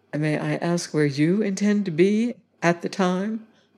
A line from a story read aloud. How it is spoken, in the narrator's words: I inquired very quietly